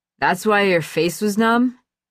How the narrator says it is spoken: Sam slurred

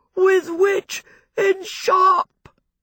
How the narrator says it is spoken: he wailed

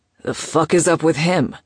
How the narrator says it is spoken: Oscar grunted

